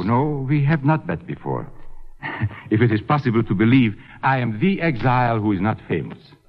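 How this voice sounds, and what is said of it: Hard-to-place foreign accent. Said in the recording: “accents of your country, but yours is most difficult to place. Is it Asuth German?”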